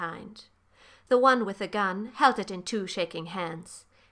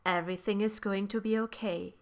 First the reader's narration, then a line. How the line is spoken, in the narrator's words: he murmured